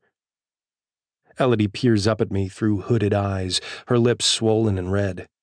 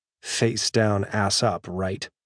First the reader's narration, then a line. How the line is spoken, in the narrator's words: she says in a harsh voice